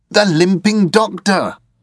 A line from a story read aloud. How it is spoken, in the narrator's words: I exclaimed